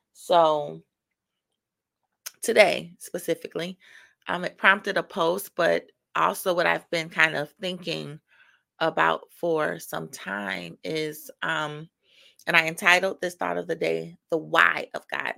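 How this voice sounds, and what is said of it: Scratchy morning voice. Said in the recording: “if my voice sounds a little scratchy. It is morning. So I'm just waking up.”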